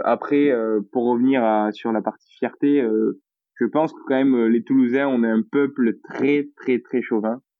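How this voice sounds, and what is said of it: Toulouse southern French accent. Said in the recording (French): “je suis toulousain ... je pense qu'on entend rapidement ... je cache pas mon accent”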